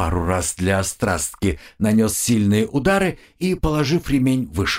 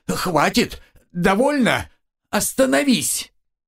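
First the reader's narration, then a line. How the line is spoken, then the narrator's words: Screaming in pain. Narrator (Russian): Капитан когда стало особенно больно, он закричал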